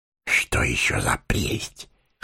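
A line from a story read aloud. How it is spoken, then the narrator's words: Whisper in ear. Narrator (Russian): шепнул Сэмми на ухо Фродо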